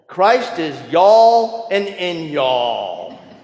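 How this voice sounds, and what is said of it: Put-on Southern drawl. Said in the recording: “I'll do my best Southern drawl.”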